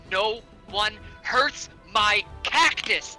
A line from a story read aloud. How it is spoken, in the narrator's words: Griswold's going to use half his movement to get up and shout